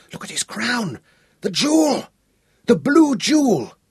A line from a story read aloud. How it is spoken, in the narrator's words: gasped